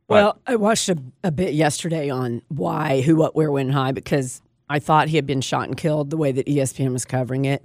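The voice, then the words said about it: Hoarse, fading voice. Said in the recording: “I know I'm losing my voice.”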